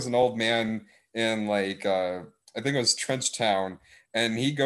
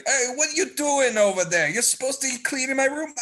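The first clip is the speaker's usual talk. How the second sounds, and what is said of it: Put-on Brooklyn accent. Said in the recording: “they got like a Brooklyn accent.”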